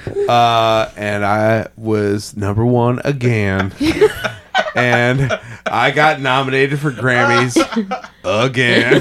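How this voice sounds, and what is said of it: Forrest Gump character voice impression. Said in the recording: “my Forrest Gump impression.”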